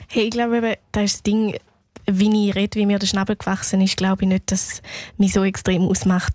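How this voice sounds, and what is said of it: Thurgau Swiss German dialect. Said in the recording (German): “den Thurgauer Dialekt, wo sie ja auch redet”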